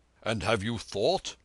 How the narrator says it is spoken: said the uninjured man hotly

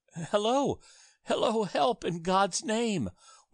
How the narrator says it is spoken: wailed the woman

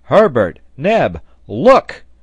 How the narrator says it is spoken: he shouted

